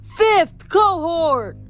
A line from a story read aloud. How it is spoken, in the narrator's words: He shouted